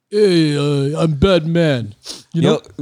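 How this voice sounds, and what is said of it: Imitates another person's voice. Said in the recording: “It'd be funnier if he had Sly's accent. ... I wonder if Stallone ever tried to be Batman.”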